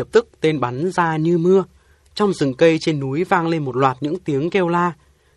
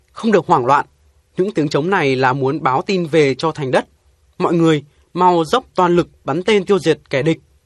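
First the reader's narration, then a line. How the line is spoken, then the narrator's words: Loud shout. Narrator (Vietnamese): Tôi bèn quát to lên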